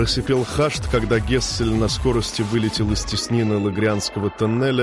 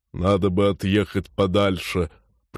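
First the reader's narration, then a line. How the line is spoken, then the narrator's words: Deep bass voice. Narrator (Russian): пробасил Ронг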